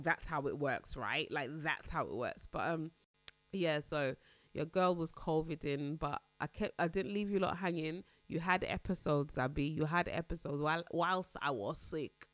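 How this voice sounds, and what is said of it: Deeper, nasal, congested voice. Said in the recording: “if you can hear my throat ... my voice sounds deeper and I sound more nasally than usual. Just a little bit blocked up, little bit bunged up”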